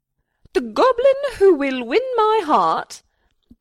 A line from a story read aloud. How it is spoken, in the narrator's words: cried from atop her tower